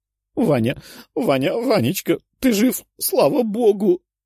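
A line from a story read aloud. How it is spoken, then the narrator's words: Sobbing woman. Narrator (Russian): рыдала она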